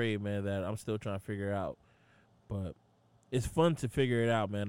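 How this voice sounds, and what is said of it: Usual voice. Nothing is said of it.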